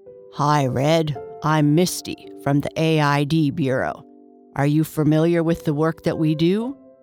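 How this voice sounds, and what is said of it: Abnormally deep voice. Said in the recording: “In an abnormally deep voice, the larger of the two spoke first.”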